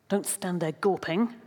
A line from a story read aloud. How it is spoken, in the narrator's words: his grandfather hisses